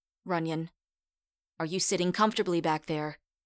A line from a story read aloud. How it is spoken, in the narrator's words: Rosie barked